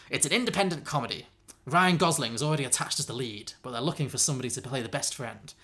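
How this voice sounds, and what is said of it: Put-on character voice, drifting accent. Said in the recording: “This voice is starting to hurt... my style's gone on quite a journey, I'm sorry. Accent-wise.”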